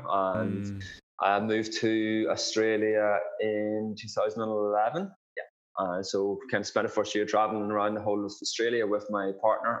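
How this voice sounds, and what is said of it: Irish accent. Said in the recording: “there's an accent there”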